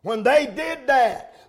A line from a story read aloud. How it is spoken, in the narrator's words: they shouted with a great shout